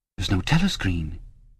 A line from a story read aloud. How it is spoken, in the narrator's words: he could not help murmuring